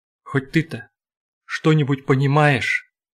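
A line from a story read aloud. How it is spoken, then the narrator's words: Sudden sobbing whisper. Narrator (Russian): вдруг рыдающим шепотом спросил Шанур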